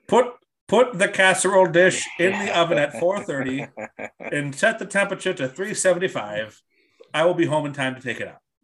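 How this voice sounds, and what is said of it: Slightly British professorial accent. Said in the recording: “your impression of your mom giving instructions is like a slightly British professor ... The notepad has a slightly British professorial accent.”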